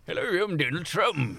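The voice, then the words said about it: Imitates another person's voice. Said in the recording (Norwegian): “Det var som om han var i rommet her. Det var en parodi på Marius i norske grønnsaker, egentlig.”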